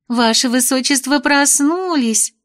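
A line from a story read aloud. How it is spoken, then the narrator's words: Joyful chirping chatter. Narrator (Russian): радостно защебетали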